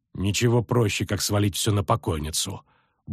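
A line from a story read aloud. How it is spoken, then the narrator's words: Muttering. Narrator (Russian): буркнула Сабрина Глевисик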